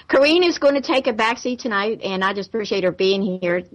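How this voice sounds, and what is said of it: Southern American accent. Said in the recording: “I'm from the South, so you have to listen to the Southern accent a little bit tonight ... I like a good Southern accent.”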